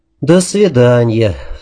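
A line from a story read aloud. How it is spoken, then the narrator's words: Sigh. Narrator (Russian): вздохнул я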